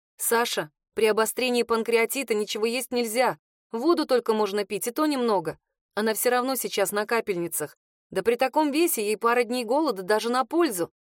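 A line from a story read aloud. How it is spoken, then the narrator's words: Plain. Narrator (Russian): сказала я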